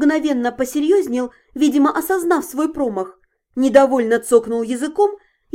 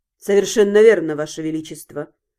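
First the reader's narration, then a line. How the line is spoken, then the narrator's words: Cold voice. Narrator (Russian): Холодно проговорил Вашарий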